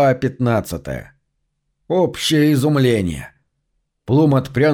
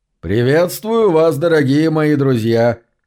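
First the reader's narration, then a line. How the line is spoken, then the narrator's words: Loud. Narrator (Russian): громко произнес великий Делакорте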